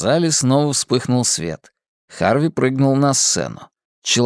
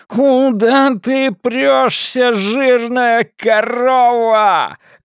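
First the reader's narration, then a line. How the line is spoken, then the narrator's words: Shouting. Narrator (Russian): кричал Харви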